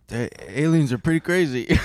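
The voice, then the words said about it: Imitates another person's voice. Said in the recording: “Do your Joe Rogan impression.”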